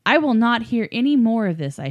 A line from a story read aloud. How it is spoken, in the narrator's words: I shouted, hating the anger in my voice